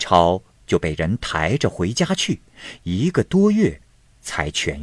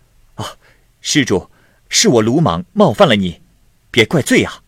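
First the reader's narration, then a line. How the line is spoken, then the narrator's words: Smiling, apologetic. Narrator (Chinese): 尼姑笑着道歉说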